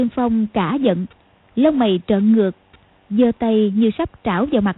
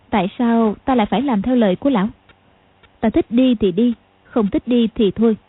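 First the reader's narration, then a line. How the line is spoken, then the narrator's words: Cold. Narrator (Vietnamese): Tiểu Long Nữ lạnh lùng nói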